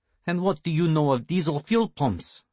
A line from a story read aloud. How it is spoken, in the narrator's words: Melikin asked in a tired but kind voice